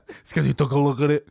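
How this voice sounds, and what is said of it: Imitates another person's voice. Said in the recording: “that's my Nick Cage impression... Oh, that's good.”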